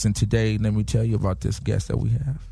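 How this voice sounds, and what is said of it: Seductive, sexy voice. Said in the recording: “Sexy voice. ... did I get a little seductive?”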